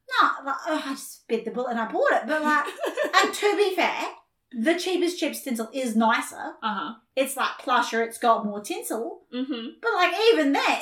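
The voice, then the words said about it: Strong regional accent. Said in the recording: “your accent is really popping off right now”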